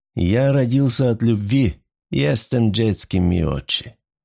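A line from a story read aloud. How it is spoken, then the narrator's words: Searing growl. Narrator (Russian): рычал мистер Сноу, его голос обжигал уши Джин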